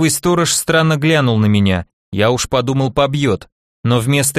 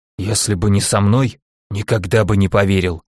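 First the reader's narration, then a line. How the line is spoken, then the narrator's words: Whispered under breath. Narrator (Russian): прошептал он под нос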